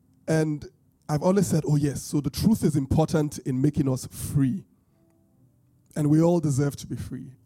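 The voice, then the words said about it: British-Bini accent, voice affected by cold. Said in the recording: “my British Bini accent is not coming out well with this cold”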